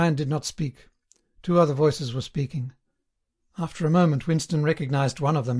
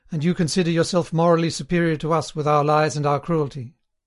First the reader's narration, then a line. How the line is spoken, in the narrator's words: His manner changed, and he said more harshly